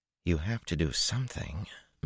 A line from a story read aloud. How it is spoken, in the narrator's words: Min muttered